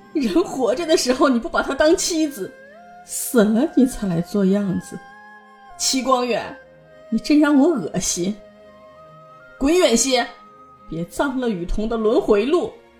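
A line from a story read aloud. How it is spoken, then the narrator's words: Crying and laughing. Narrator (Chinese): 方敏又哭又笑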